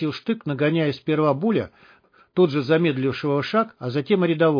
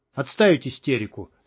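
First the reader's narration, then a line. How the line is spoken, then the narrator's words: Stern. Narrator (Russian): строго сказал штык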